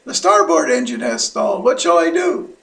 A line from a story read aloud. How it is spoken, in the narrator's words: The pilot radioed the control tower in panic and shouted